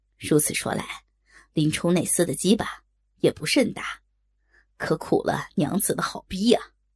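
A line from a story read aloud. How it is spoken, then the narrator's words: Laughing. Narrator (Chinese): 不由又笑道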